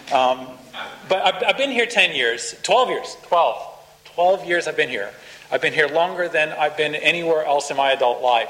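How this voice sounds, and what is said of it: American accent partly turned Australian. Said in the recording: “I'm an American, you know, by background. The accent, you know, has only half morphed over ... they think I'm Irish”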